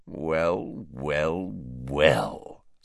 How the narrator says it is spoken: sneered Snape

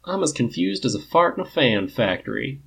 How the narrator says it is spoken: Biddy drawls

